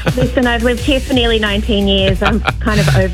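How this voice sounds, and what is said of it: Australian accent. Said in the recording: “the old accent hasn't softened ... Sometimes I get mistaken for a Kiwi ... But mostly Australian”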